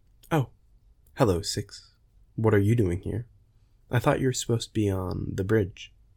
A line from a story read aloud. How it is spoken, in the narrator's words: she said